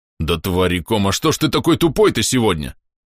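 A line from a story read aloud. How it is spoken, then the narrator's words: Alien barking angrily. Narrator (Russian): рявкнул кларианец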